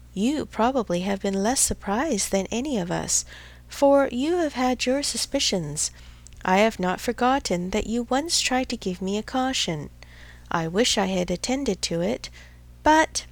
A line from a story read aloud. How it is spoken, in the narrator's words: with a sinking voice and a heavy sigh